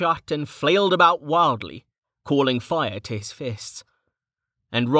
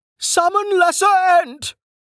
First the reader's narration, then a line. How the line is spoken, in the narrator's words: Elwood shrieked, his shrill cry cutting through the clacking din